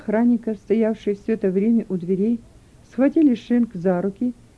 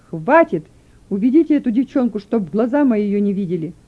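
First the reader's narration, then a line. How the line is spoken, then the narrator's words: Furious shout. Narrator (Russian): Ку, которого распирал от ярости, закричал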